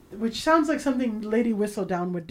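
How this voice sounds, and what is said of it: Good put-on British accent. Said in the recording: “That's a good British accent. You speak British very well.”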